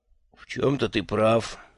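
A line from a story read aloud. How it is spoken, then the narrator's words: Gentle. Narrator (Russian): мягко сказал Джуфин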